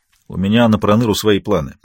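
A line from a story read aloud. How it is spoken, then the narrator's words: Grumbling queen. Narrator (Russian): пробурчала королева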